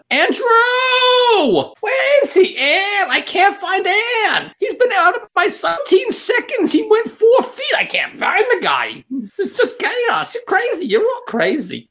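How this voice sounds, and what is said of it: Shouting imitation of another person's voice. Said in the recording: “your best impersonation of the way Shelby calls for her husband”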